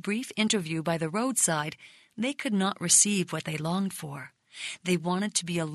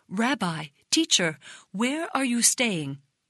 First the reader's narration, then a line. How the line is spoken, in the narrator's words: They exclaimed